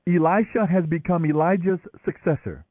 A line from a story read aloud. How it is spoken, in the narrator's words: the group of prophets from Jericho exclaimed